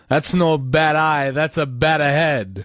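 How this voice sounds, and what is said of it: Thick Italian accent. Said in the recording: “thick Italian accent”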